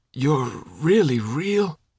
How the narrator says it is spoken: croaked again

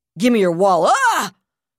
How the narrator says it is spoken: the one with the knife snarled, only to break off with a scream

